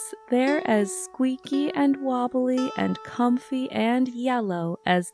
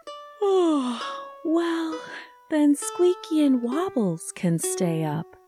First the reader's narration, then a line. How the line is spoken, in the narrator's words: Sam said with another yawn